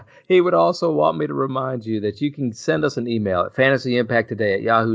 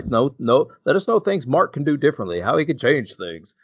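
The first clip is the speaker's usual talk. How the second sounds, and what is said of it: Imitates another person's voice. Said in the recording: “That was my Mark impression ... It was beautiful. Spot on.”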